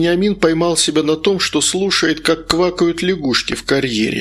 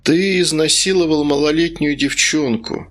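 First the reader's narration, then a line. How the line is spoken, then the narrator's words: Strange bored tone. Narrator (Russian): странным скучающим тоном сказал Медовар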